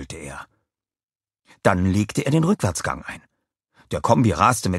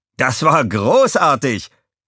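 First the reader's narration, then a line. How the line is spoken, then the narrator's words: Called out. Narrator (German): rief Walter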